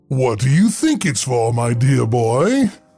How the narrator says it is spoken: The librarian's voice boomed with a chuckle

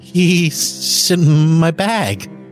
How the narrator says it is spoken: stammered

